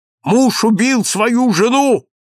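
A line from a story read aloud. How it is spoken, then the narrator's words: Shouted. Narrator (Russian): крикнула красная физиономия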